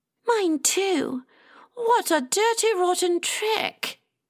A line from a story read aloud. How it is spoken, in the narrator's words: Llewellyn gasped